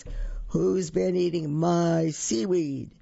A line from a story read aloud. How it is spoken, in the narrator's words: say in a great big voice